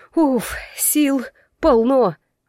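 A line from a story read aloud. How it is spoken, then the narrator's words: Blissful exhale. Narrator (Russian): Выдохнула блаженно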